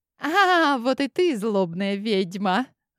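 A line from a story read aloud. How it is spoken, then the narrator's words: Sinister cackle. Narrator (Russian): подруга зловеще захохотала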